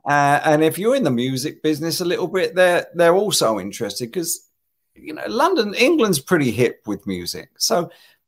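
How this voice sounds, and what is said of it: English accent. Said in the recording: “People are always interested in an English accent here.”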